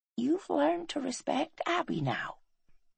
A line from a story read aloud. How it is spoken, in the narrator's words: she whispered